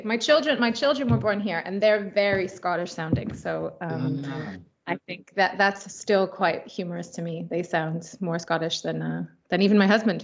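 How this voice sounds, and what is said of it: Glaswegian sing-song accent. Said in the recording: “my funny Glaswegian sing-song accent”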